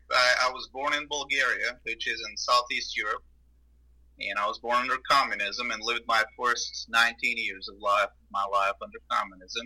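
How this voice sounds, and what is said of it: Non-Southern, foreign English accent. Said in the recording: “accent doesn't sound very Southern”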